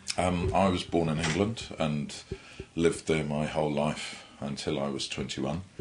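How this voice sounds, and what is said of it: Slight English accent. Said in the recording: “I'm picking a little bit of an English accent.”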